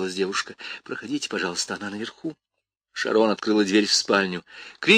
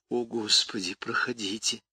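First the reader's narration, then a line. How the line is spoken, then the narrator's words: Trembling, strained voice. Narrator (Russian): дрожащим голосом выдавила она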